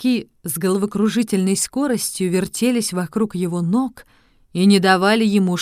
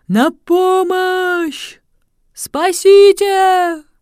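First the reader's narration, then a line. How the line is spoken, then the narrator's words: Startled shout. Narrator (Russian): От удивления человек в маске тоже закричал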